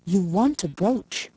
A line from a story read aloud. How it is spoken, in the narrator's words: said Mrs